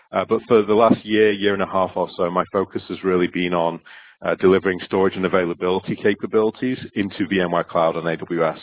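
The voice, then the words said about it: Northern English Manchester-area accent. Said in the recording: “that's not a West Coast US accent... I'm originally from Stockport, uh, which is just close to Manchester in the UK, and my accent seems to have travelled with me”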